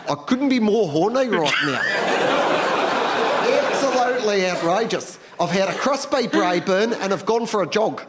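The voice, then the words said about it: Put-on New Zealand accent. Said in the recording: “I absolutely love a Kiwi accent. It's so confusing. Every single vowel is moved around in the sentence ... It's so hard to talk dirty in a Kiwi accent”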